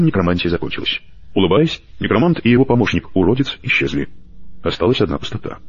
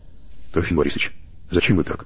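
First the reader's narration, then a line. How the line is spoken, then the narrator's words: Timid question. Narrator (Russian): робко спросила Алена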